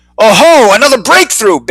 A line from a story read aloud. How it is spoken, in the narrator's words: Bixby roared